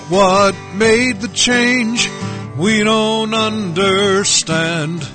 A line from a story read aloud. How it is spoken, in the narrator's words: People cried out